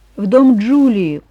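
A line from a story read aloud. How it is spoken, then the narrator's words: Glum reply. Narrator (Russian): уныло ответил Мэтт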